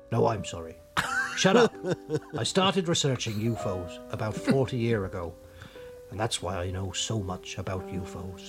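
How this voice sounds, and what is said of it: Strong Norfolk English accent. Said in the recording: “I'm from Norfolk, right by the coast ... That's why my accent is so strong. ... It is strong.”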